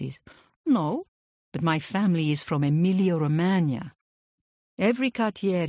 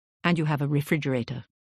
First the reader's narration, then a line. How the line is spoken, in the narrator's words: he added quickly